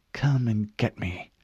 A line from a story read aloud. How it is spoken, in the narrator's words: she muttered